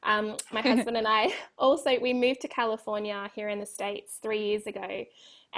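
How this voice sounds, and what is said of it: Australian accent. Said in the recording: “you can hear from my voice, I'm Australian”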